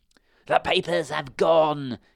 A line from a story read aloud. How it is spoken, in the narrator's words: he shrieked